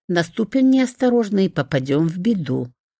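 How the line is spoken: Soft. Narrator (Russian): дракон добавил мягко

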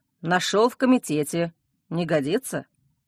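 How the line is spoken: Gloomy question. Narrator (Russian): мрачно спросил коллега

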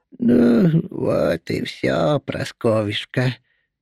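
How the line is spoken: Creaky old voice. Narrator (Russian): проскрипела подошедшая сзади Устинья

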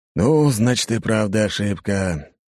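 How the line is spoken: Relieved exhale, group. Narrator (Russian): выдохнули начальники

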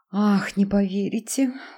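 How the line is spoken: Dejected sigh. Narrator (Russian): уныло вздохнула она

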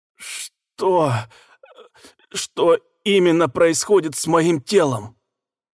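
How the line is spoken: Hoarse, struggling through a fit. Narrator (Russian): прохрипел, борясь с очередным приступом

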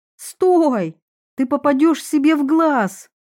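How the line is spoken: Shout. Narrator (Russian): я закричала

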